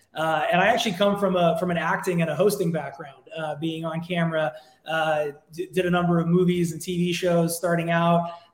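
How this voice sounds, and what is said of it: Strong American accent. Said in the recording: “as you can tell from my aggressive accent, I am an American, born and raised here in Los Angeles”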